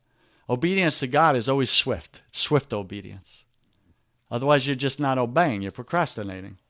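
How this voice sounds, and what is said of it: New York accent. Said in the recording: “my annoying New York accent”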